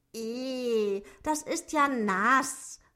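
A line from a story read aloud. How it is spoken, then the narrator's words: Dwarf calling out. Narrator (German): rief Zwerg Otto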